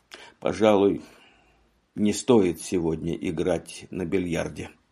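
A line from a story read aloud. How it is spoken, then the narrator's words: Hesitant mutter. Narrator (Russian): помедлив пробормотал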